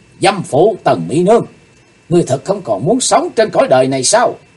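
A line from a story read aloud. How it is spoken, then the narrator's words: Loud shout. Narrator (Vietnamese): Chí Tôn quát lớn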